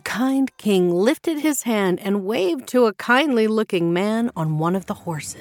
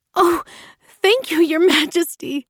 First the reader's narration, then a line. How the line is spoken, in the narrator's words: Pashe cried, as tears of joy filled her eyes